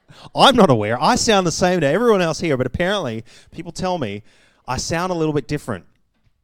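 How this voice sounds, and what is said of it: Canadian-influenced Australian accent. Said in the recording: “I have an accent... Spent some time in Canada when I was young. I was born in Australia... picked up an accent”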